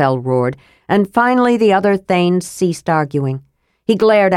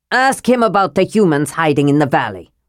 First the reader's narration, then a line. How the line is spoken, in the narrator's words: Railgar snarled